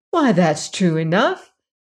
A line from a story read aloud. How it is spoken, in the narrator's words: exclaimed Dorothy